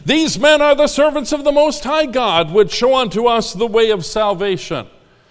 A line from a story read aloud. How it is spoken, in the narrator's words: this woman cried, saying